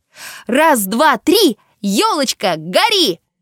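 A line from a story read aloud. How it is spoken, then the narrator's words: Shouting. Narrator (Russian): закричала Таня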